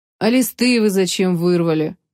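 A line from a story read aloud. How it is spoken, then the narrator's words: Weary question. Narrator (Russian): устало спросил Федерико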